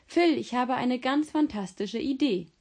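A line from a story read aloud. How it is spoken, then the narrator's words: Calling out. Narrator (German): rief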